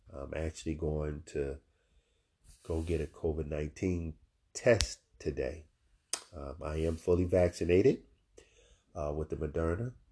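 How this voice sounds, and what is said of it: Stuffy, congested voice. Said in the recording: “I sound a little stuffy,... I am feeling under the weather.”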